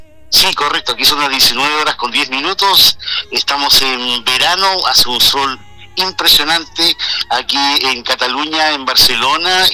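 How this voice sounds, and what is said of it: Pure home accent, no Spain influence. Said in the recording (Spanish): “tu acento lo tienes pero puro, ¿eh? ... nada de ostras ni cosas así, sino que lo has mantenido”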